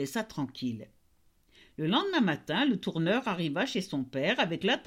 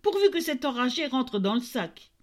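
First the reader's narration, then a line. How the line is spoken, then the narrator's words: Hushed exclamation. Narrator (French): s'écria l'aubergiste à demi-voix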